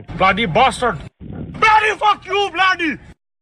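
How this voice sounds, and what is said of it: Shouting angrily. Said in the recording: “Why are you shouting, sir? ... Why are you just yelling?”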